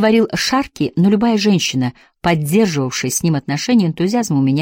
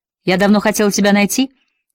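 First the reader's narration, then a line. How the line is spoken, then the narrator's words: Cheerful. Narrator (Russian): весело сказала она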